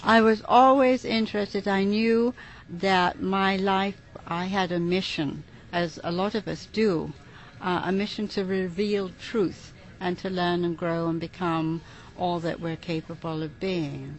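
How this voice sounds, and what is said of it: English accent. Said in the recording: “your accent ... I'm from the United Kingdom, England.”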